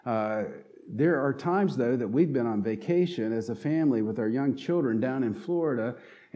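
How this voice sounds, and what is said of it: Southern twang, North Carolina accent. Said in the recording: “if you listen closely, will detect a southern twang in my voice, and you can know that I'm from North Carolina”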